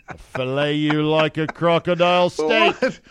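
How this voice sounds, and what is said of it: Put-on Australian accent. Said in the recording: “The Aussie accent.”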